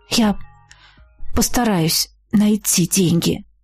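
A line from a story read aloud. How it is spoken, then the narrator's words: Mumbling. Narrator (Russian): пробормотала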